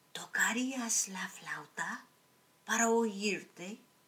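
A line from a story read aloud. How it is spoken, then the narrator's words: Weak voice from bed. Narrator (Spanish): el príncipe pidió desde el lecho, con voz débil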